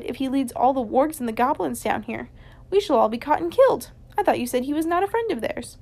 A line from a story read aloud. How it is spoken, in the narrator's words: he cried